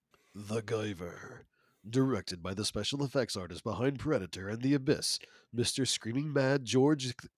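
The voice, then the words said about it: Movie trailer announcer voice. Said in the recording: “I'm going to channel my movie announcer voice”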